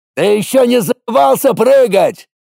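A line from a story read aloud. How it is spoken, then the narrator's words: Yelling right in ear. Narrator (Russian): заорал мне в ухо Колян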